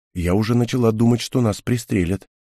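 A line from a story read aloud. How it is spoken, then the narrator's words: Quiet. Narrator (Russian): тихо сказала Хел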